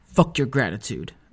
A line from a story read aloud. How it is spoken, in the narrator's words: said bitterly